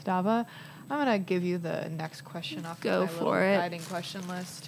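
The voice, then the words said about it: Slightly nasal voice. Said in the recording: “If I sound a little nasal, that is because I've got a tissue shoved up my nose.”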